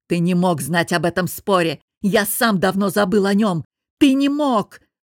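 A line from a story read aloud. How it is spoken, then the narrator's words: Roaring. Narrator (Russian): взревел Костя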